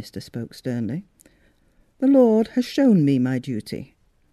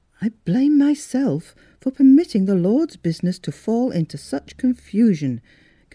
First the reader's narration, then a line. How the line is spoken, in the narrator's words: continued the minister earnestly